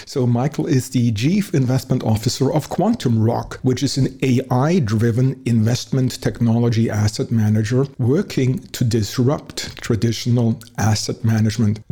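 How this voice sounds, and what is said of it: Heavy German accent. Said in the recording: “my heavy German accent”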